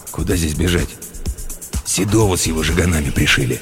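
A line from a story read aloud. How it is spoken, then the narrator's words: Gruff mutter. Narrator (Russian): буркнул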